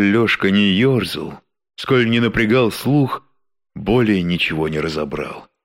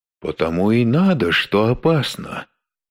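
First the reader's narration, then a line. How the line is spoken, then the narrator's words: Calm, then whispering. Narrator (Russian): спокойно ответил ему одноглазый и снова перешел на шепот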